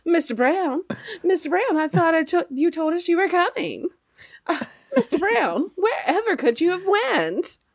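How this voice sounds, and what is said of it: Put-on transatlantic accent. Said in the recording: “with that lovely transatlantic accent”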